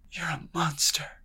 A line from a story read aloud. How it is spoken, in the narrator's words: Amitha whispered through her teeth